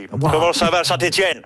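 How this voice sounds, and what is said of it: Imitates another person's voice. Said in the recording (French): “c'est pas Macron, c'est... Salut, c'est Johnny ... Toujours pas les imitations”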